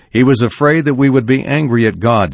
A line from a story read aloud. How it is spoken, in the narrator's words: says